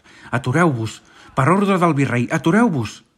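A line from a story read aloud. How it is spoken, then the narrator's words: Armed man shouting. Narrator (Catalan): va cridar un home armat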